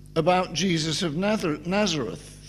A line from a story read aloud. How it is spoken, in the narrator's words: they replied